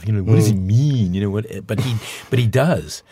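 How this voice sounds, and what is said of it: Bad imitation of a singer's voice. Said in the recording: “my obligatory bad Dylan impersonation”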